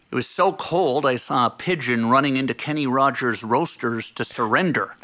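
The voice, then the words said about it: Impression of Johnny's talk-show cadence. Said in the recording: “my one impression. ... your natural cadence is not dissimilar to his ... I've watched a lot of Johnny over the years”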